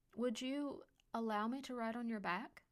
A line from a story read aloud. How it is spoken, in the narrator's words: Patience asked Callum